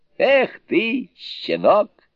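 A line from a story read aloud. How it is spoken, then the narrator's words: Laughing. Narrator (Russian): смеясь, сказал Суню-Кун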